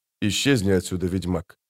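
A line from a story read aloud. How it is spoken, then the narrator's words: Whisper. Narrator (Russian): прошептал Феррент де Леттенхоф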